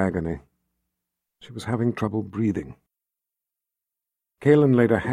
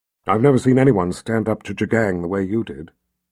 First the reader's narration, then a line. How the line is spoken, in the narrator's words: Kaylin said